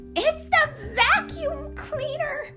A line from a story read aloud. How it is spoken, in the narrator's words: shrieked Melissa